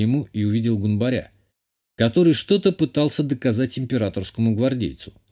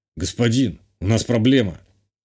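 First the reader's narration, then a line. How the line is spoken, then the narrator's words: Gloomy. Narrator (Russian): мрачно сказал телохранитель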